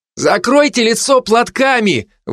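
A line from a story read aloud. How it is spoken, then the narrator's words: Shouted from a distance. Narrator (Russian): выкрикнули из пробоины в салоне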